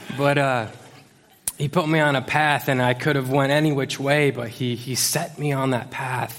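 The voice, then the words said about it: Emotional, choked-up voice. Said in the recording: “I'm getting emo- I'm getting emotional. Come on, I'm already two minutes in, I'm getting emotional.”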